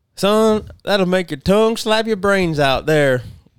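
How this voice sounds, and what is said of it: Good Southern accent impression. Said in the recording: “really good Southern accent.”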